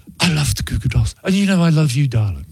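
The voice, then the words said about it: Posh English accent impression. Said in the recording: “It's that posh English accent.”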